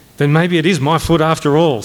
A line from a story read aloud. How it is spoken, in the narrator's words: said Major Metcalf